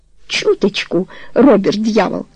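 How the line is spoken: Laughing. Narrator (Russian): сказала Тони, смеясь

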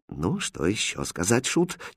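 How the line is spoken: Quiet question. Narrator (Russian): тихо спросил король

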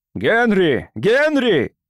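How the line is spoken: Shouted. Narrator (Russian): закричал доктор

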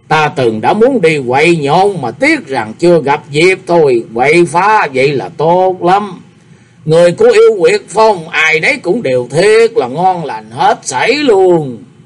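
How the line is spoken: Laughing loudly. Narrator (Vietnamese): Đồng Điều vỗ tay cười to

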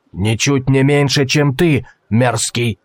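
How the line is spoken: Merchant's growl. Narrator (Russian): прорычал торговец

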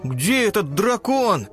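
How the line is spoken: Shout. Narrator (Russian): крикнул Тик

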